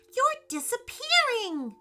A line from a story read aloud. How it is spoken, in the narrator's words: Gabrielle exclaimed